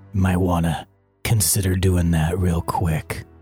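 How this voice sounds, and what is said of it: Tough cowboy character voice. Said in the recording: “talking like a badass ... He's a cowboy ... I clearly smoke cigarettes”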